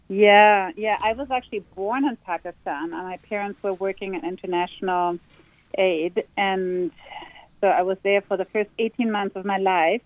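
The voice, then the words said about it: Interesting, beautiful non-native accent. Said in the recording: “you've got such an interesting um, accent. It's quite beautiful”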